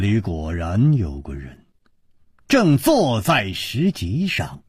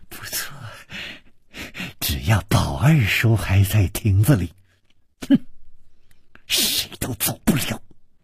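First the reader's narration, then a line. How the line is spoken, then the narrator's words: Malicious smile. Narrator (Chinese): 施少奶奶的嘴角也泛起了一丝恶意的微笑，说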